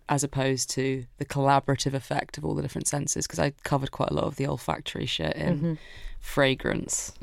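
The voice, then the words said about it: Stuffy, congested voice. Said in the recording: “I have a cold right now”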